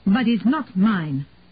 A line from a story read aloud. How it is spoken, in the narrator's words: Lottie said fiercely